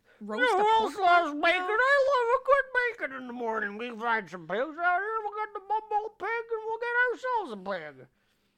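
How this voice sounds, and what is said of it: Loud cartoon character voice. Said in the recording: “I'm not going to have a voice tomorrow ... I was doing a lot of Yukon Cornelius impressions”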